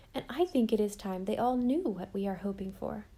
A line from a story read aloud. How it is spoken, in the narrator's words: said Anne gravely